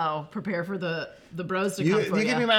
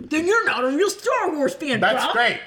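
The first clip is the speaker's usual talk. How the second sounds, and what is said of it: Imitates other people's voices. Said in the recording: “doing an impression of you guys”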